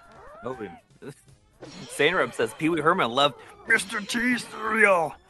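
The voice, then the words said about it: Imitates another person's voice. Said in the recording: “That's my Pee Wee Herman impression.”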